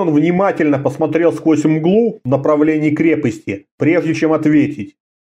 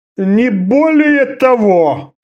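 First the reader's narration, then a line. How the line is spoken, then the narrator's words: Moaned. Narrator (Russian): простонал Орда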